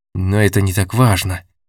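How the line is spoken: Irritated dismissal. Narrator (Russian): раздраженно отмахнулся Олег

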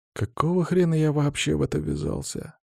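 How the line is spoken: Whisper. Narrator (Russian): прошептал я

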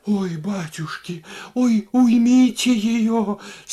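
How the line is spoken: Moaning. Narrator (Russian): стонала Варвара

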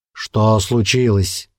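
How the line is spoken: Displeased grumble. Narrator (Russian): недовольно проворчал Остах

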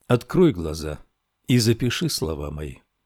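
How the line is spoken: Teacher speaking quietly. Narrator (Russian): учитель тихо сказал

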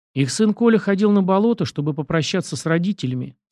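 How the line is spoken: Calm. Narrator (Russian): спокойно ответил

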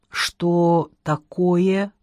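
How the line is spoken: Slow question. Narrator (Russian): медленно спросил Василий Иванович

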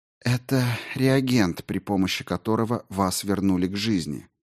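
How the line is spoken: Man speaking quietly. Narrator (Russian): мужчина тихо сказал

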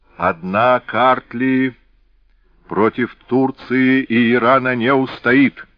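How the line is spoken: Menacing shout. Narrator (Russian): грозно крикнул Саакадзе

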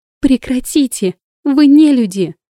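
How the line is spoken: Terrified scream, female. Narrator (Russian): закричала она в ужасе

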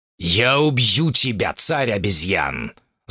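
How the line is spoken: Growl. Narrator (Russian): зарычал господин Ранджит

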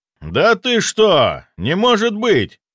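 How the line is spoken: Frightened outcry. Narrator (Russian): выкрикнул он

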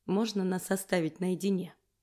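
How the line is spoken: Quiet request. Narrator (Russian): Негромко прошу

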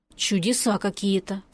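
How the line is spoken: Mutter. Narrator (Russian): пробормотала я

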